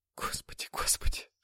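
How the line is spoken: Whisper. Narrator (Russian): шептала Анна

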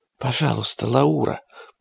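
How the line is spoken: Whisper. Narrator (Russian): прошептала Марджи

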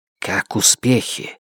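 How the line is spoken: Hissing with suppressed anger. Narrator (Russian): Она зашипела сквозь зубы, тщательно сдерживая свой гнев

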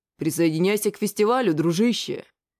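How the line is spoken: Deep bass voice. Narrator (Russian): пробасил

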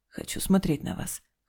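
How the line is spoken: Hoarse demand. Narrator (Russian): хрипло потребовал Дима

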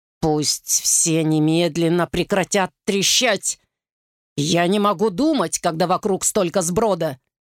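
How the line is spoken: Hissed through teeth. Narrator (Russian): Генерал сквозь зубы прошипел

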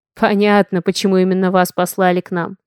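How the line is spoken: Wry snort. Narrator (Russian): хмыкнул Хейвард

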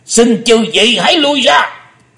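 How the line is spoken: Thunderous roar. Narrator (Vietnamese): Âm Ma giáo chủ mới gầm to tợ sấm

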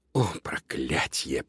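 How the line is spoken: Muttered. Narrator (Russian): пробормотал Луноброд

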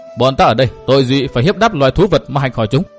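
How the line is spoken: Angry question. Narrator (Vietnamese): Nguyên Bình giận dữ hỏi

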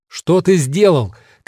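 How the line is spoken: Shouting. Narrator (Russian): кричал он

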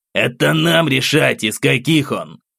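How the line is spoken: Snapped irritably. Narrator (Russian): Недовольно огрызнулся Тинишев

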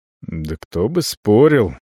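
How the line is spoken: Muttering. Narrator (Russian): бормочу

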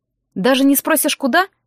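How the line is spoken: Smirking snort. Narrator (Russian): хмыкнул он

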